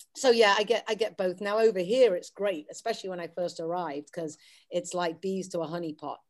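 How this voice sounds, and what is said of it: Mild English Wirral accent. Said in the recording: “the English accent ... I'm a Wirral lass, so I never had a really strong overtones, but they come out every now and again”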